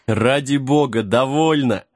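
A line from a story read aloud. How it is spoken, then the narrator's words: Laughing. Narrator (Russian): рассмеялся Джек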